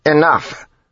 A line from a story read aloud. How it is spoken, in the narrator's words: Jastis snapped